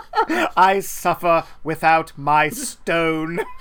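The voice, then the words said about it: Exaggerated accent imitating a film character. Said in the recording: “I gave him more of an accent than he had.”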